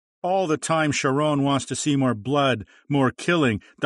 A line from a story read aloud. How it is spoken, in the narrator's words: Dahamshe shouted